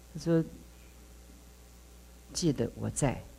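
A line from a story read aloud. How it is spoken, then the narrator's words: Clear voice. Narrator (Chinese): 一个声音很清楚说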